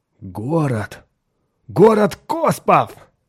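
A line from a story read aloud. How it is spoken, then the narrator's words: Exclamation. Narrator (Russian): воскликнул Хоик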